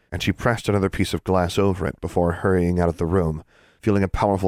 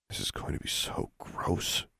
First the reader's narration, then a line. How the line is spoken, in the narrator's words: she muttered